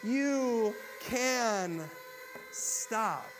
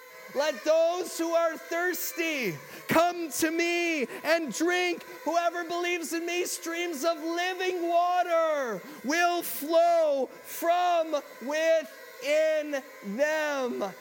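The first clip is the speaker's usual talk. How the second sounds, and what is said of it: Loud, shouted delivery. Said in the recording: “in a loud voice”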